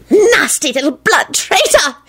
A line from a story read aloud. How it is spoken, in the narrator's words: he hissed